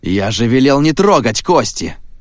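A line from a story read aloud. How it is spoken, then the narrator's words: Angry thunderous roar. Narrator (Russian): гневно прогремел Тор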